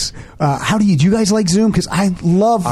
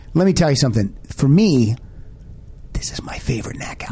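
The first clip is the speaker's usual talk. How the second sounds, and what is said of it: Whispering. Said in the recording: “Why are we whispering? ... Because I like to whisper when I tell ... listeners.”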